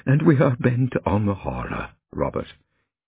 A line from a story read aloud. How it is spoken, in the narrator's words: he chuckled softly